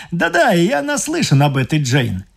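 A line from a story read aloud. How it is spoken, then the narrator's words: Cheerful. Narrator (Russian): весело сказал мистер Трессер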